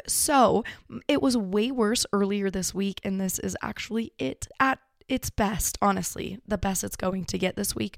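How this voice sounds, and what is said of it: Raspy, hoarse sick voice. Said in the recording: “I've been super sick ... losing my voice ... attack my throat ... I apologize for being so raspy”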